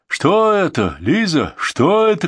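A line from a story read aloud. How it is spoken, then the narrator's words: Breathless shouting. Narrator (Russian): кричал отец Георгий, едва поспевая за ней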